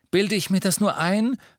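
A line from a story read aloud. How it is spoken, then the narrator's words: Calling out. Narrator (German): rief Ron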